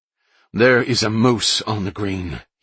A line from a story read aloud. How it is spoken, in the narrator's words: he panted